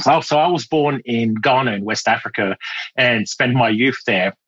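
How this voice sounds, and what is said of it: Mixed British and French accent. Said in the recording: “I'm hearing like British, I'm hearing French. There's other things there ... my accent became British”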